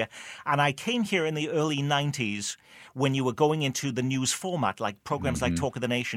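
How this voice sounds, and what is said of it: British Welsh accent. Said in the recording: “nobody is interested in a British accent ... you grew up in Port Talbot, Wales in the UK”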